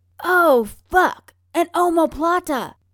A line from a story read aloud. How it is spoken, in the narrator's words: Ryan shouts